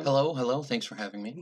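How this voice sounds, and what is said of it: Radio announcer-style voice. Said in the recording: “Your radio impersonator voice.”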